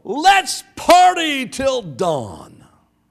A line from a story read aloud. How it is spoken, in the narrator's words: in a salute of triumph, he yelled